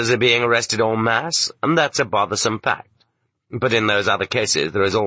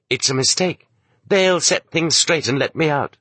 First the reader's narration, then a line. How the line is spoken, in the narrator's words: you still keep on exclaiming to yourself